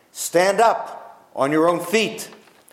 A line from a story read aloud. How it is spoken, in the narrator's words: Paul called out